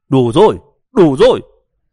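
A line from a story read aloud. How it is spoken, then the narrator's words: Exasperated shout. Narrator (Vietnamese): Đậu Tự Lực cuối cùng không chịu đựng nổi nữa, quát lên với mấy tiếng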